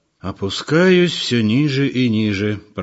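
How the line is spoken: Grumbling. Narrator (Russian): проворчал он

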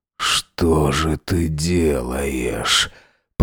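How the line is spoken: Moaning. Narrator (Russian): Простонал я

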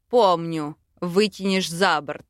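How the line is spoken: Snort. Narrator (Russian): хмыкнул Велитар

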